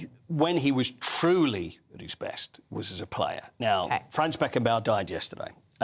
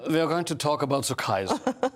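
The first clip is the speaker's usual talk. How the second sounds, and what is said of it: Put-on accent. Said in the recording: “I need an accent from you. I will not be happy unless I get one. ... Very good.”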